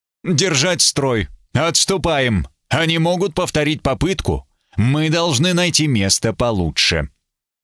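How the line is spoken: Exhausted moan. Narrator (Russian): Кто-то простонал измученно

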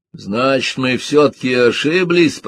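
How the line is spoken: Shouted, close to tears. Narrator (Russian): прокричал он, чуть не плача

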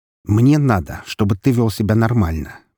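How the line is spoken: Commanding tone. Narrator (Russian): приказным тоном проговорил Артем

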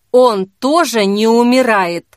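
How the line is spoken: Through gritted teeth. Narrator (Russian): сквозь зубы спросил Вадим

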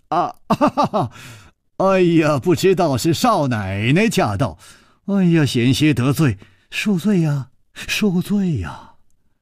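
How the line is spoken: Smiling. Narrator (Chinese): 楚留香微笑着说

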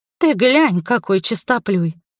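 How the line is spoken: Scoffing. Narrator (Russian): хмыкнула я

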